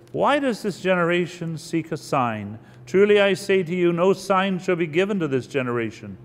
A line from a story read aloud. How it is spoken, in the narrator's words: he sighed deeply in his spirit and said